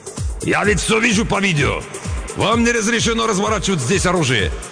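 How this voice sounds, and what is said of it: Indignant voice with a foreign accent. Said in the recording (Russian): “возмущенный голос, говоривший с акцентом”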